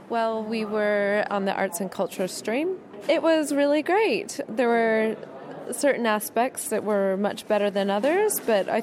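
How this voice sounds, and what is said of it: American accent. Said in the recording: “your accent ... I'm from America.”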